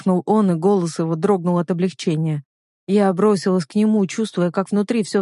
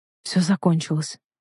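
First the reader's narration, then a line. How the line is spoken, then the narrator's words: Whispered in ear. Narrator (Russian): прошептал на ухо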